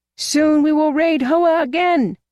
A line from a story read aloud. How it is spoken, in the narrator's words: shouted young Gim